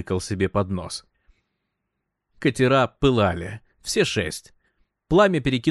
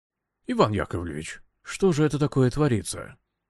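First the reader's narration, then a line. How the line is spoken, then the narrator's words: Whisper at elbow, battalion commissar. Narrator (Russian): под руку прошептал комиссар батальона Балабанов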